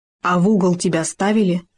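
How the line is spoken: Plain. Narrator (Russian): спросил Хома

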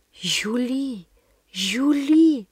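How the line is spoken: Horrified whisper. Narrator (Russian): прошептала я в ужасе

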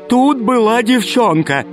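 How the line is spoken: Fat man shouting. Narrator (Russian): кричал толстяк

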